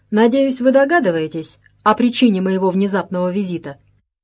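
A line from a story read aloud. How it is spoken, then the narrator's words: Formal tone. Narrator (Russian): заговорил он официальным тоном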